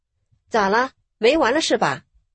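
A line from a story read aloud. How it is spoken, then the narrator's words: Stern scolding. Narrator (Chinese): 厉声呵斥道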